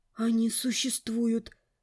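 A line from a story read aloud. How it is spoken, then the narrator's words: Astonished gasp. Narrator (Russian): Пораженно выдохнула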